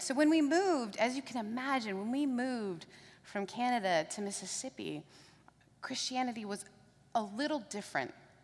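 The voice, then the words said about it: Mixed British, Southern, Canadian accent. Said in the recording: “I'm British, Southern, and Canadian. So the accent you hear is Brothernadian... some words I sound really Southern, some words British, and some words Canadian”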